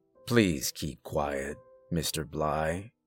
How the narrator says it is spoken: the first orderly repeated, his voice still calm and professional

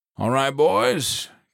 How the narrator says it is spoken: Copeland barked

